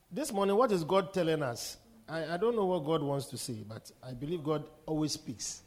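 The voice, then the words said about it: Voice sounds like a cold. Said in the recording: “my voice has changed all of a sudden... I sound like I have cold.”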